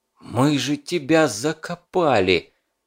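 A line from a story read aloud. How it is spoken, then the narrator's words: Barely forced out, strained. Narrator (Russian): Еле-еле смог выдавить из себя Фурманов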